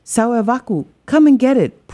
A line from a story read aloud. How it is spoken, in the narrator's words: Pua yelled back